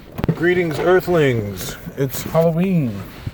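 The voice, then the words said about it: Spooky Halloween voice. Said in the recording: “I'm using my spooky voice for this podcast”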